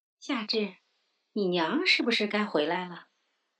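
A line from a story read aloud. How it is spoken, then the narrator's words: Cheerful older woman. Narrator (Chinese): 另一个年纪略长的媳妇笑呵呵地问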